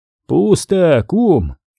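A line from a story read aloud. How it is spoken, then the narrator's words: Hoarse. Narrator (Russian): услышал, наконец, Воронцов его хриплый голос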